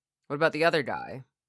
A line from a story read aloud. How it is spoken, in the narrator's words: I asked